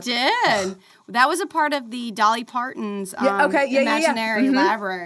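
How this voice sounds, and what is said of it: Country accent slipping out. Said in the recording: “my country accent just came out”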